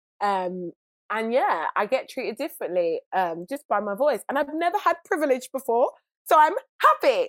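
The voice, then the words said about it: British accent. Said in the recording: “this girl looks like Keisha but sounds like Penelope ... it's because I'm British ... the British accent”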